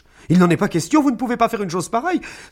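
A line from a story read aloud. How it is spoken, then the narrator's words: Exclaimed. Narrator (French): s'exclama Amanda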